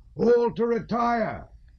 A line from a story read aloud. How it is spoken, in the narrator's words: He shouted from a distance